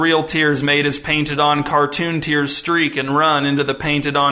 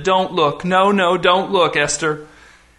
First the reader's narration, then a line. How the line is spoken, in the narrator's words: the man groaned, unable to look at his daughter, said